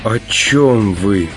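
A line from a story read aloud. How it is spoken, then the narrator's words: Asked in sinking voice. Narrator (Russian): упавшим голосом спросила Наташа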